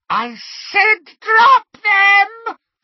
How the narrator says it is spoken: she screeched

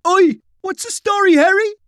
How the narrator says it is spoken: Kevin hollered as they jogged past

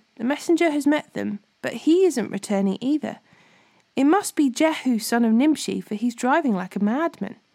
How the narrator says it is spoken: The watchman exclaimed

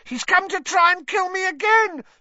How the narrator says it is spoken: Pettigrew shrieked suddenly

